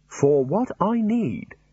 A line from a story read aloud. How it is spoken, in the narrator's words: said Rincewind